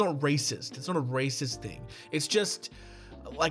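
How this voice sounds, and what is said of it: Usual voice. Nothing is said of it.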